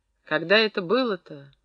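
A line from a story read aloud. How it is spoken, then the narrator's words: Sad, asking himself. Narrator (Russian): грустно переспросил сам у себя Фрол Курганов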